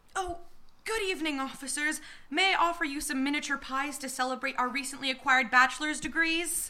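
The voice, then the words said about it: Kind but accurate impression of Dee. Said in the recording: “Doing a kind but accurate impression of Dee.”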